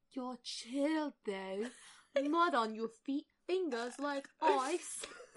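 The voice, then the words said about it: Weird, bad Cockney accent. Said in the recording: “I'm doing the weirdest, like, bad Cockney accent.”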